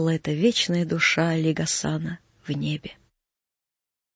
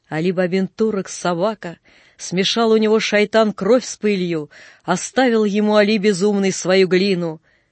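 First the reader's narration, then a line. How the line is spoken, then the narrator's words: Crowd shouting. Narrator (Russian): кричали на базаре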